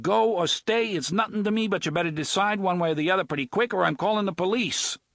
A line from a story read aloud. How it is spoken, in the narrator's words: McGursky yelled